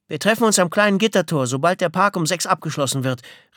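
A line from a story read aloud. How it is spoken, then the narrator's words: Calling after someone. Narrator (German): rief ihm nach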